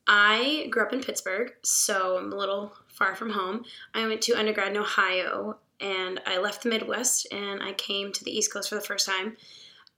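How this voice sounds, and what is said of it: Raspy voice. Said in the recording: “I'm kind of recovering from a cold, so my voice is a little raspy.”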